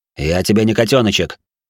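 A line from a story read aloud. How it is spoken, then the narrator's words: Sharp, through clenched jaw. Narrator (Russian): резко ответил я, сжав челюсти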